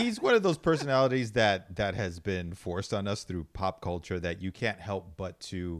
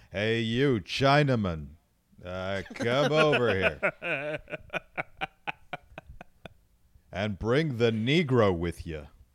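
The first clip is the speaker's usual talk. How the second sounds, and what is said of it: Good John Wayne impression. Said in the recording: “you do a, a fucking weird, weirdly good impression of John Wayne”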